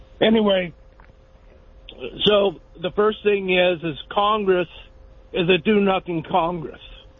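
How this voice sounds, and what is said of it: Hoarse, failing voice. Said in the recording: “I'm losing my, excuse me, losing my voice here.”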